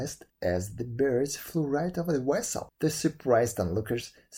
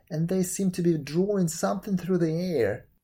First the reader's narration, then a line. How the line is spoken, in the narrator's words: cried in astonishment